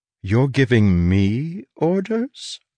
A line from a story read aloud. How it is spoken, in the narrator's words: I said softly